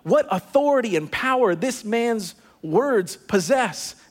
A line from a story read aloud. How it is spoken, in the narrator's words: Amazed, the people exclaimed